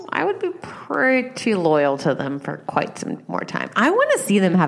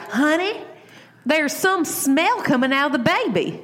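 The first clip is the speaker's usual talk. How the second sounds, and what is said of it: Put-on Kentucky-style Southern accent. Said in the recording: “Wait, he doesn't have an accent. ... is Jax from Kentucky now? ... I don't know why I'm doing this accent.”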